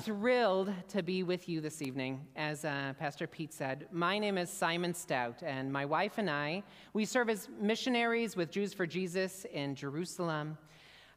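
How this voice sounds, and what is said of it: American Midwestern accent, not Israeli. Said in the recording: “my accent doesn't sound like Gal Gadot or another Israeli, and that's because I actually come from the state of Indiana”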